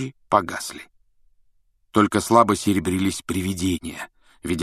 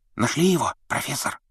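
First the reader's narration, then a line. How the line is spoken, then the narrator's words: Whisper. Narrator (Russian): прошептал Перси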